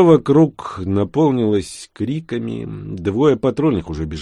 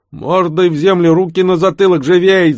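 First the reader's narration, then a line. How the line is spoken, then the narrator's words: Elder yelling. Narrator (Russian): заорал старший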